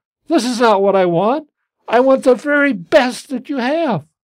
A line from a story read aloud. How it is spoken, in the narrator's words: she exclaimed